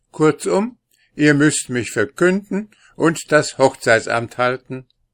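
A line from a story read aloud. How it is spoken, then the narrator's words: Insistent. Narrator (German): Hansl bestand auf seinem Begehren und sagte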